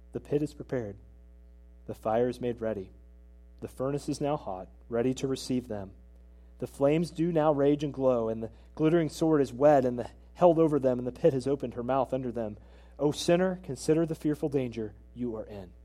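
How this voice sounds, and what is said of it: Flat monotone old-style sermon reading. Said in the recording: “my best Jonathan Edwards impression ... he read this sermon with a monotone voice, looking down”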